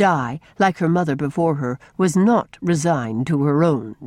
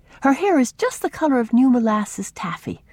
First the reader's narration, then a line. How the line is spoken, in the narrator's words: added wistfully